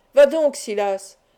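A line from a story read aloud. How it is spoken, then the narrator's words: Exclaiming one last time. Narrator (French): s'écria une dernière fois Sarkany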